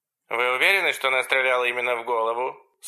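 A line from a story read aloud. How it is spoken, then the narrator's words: Irritated voice. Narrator (Russian): сказала оператор раздраженным голосом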